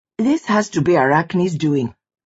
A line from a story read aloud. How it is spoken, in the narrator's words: she said